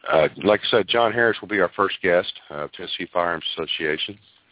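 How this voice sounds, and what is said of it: Voice off, sounds sick. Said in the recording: “My voice is a little off tonight. I'm fighting a cold, so hopefully we won't have any major problems there, but I'll sound a little bit different.”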